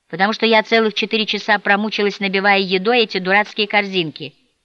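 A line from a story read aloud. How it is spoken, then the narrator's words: Plain. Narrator (Russian): сказала мама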